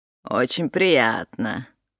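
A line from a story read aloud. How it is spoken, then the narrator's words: Affected, mincing. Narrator (Russian): жеманно сказала она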